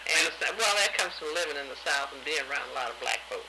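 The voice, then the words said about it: Southern US accent. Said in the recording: “you do sound like you have a southern accent.”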